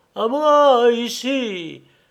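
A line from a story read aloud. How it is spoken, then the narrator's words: Exhausted shout. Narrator (French): cria Fernaud à bout de force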